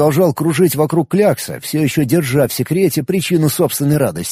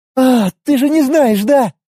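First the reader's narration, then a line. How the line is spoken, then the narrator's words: Happy female exhale. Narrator (Russian): Счастливо выдохнула мечница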